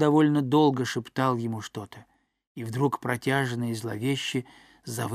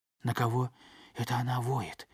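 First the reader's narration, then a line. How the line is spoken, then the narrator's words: Breathless whisper. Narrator (Russian): едва дыша прошептал Гек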